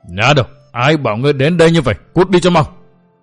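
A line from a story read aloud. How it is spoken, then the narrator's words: Frantic roaring. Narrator (Vietnamese): Phỉ Nguyên Hoàng bất giác điên cuồng gầm rống, nói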